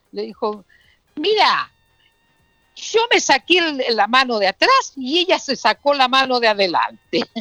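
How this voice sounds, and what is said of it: Put-on Argentine Spanish accent. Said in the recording (Spanish): “el tipo ya estaba hablando con acento argentino”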